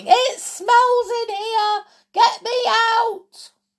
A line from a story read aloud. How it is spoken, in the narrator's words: Jodie she kept screaming